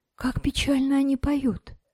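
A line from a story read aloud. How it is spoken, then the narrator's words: Whisper. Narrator (Russian): шепнула друзьям Наташа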